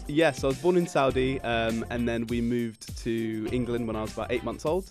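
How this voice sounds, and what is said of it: London English accent. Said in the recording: “you sound London ... the English accent has come through ... It's very prominent”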